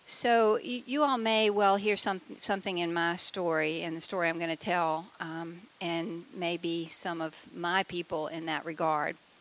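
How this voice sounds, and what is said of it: Southern US accent. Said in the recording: “how many people here were raised below the Mason-Dixon line? ... I was, in case you can't tell by my accent.”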